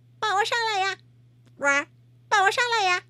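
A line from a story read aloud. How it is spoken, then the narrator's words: Shouted. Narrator (Chinese): 他喊道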